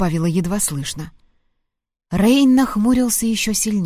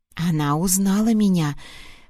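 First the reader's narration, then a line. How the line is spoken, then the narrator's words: Whispered explanation. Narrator (Russian): пояснила шепотом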